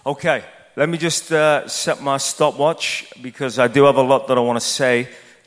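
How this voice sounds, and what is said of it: Non-American accent. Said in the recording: “you like my accent ... my American friends, you're the ones with the accent ... I thank you for your compliments about my accent”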